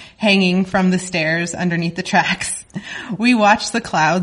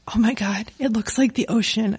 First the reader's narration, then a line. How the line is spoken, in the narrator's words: I whispered